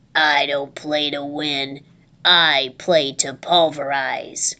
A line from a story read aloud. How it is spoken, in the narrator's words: Then he dropped his voice to a gravelly growl and said